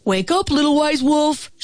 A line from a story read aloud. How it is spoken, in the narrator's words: shouted the bear